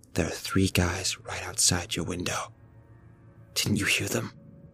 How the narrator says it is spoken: she whispered

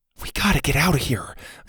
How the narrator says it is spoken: Zada whispered

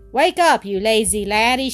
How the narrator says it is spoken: she called out to him

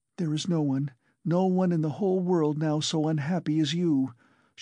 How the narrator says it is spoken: she cried in a frenzy

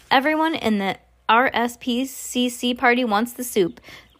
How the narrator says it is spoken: another waiter came in and shouted

